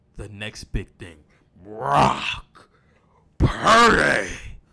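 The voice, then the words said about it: Paul Heyman impression. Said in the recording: “my best Paul Heyman impression.”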